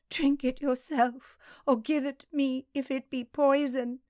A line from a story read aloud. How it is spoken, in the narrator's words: she sobbed